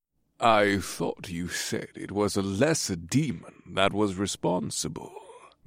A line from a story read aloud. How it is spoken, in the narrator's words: the night elf man in the silk robe said in a rich voice